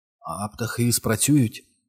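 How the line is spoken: Quiet hoarse question. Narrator (Ukrainian): тихо запитав Стен хрипким голосом

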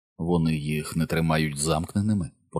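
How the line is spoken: Whisper. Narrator (Ukrainian): прошепотів він до Біла

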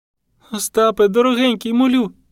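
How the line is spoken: Sobbing plea. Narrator (Ukrainian): від схлипування надувалися бульки

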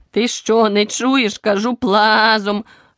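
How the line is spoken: Furious barking sheep. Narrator (Ukrainian): люто гаркнула вівця

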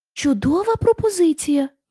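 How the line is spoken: Exclaiming lion. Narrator (Ukrainian): вигукнув лев

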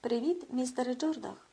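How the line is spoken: Cheerful greeting. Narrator (Ukrainian): весело привітався він

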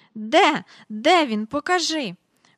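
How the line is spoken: Breathless exclamation. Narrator (Ukrainian): вигукнула міс Жайворон, ледве зводячи подих

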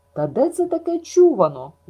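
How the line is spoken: Puzzled exclamation. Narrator (Ukrainian): вигукнула спантеличена Маріла

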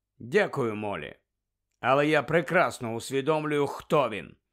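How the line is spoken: Cold curt retort. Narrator (Ukrainian): холодно відрізав Сіріус

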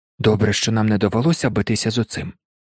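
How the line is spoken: Whisper. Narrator (Ukrainian): прошепотів Гаррі

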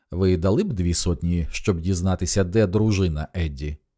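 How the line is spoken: Calm question, small man. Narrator (Ukrainian): спокійно запитав маленький чоловічок

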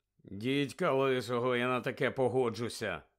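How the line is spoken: Grumbled. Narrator (Ukrainian): буркнув Едді

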